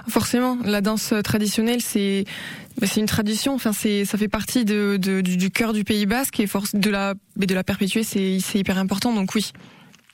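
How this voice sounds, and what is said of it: Southern French Basque accent. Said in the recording (French): “les gens, ils entendent mon accent, ils me disent « Oh, tu viens du Sud, toi ?» Je dis « Ouais, je viens du Pays Basque. » ... les gens reconnaissent mon accent”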